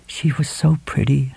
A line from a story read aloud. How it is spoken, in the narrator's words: Helen murmured